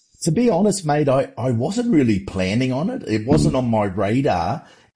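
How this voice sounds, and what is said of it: Speaks with a distinct accent. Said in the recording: “I love the accent.”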